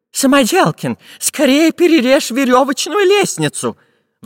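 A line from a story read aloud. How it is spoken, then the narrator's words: Pleading. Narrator (Russian): взмолился профессор Пыхтелкин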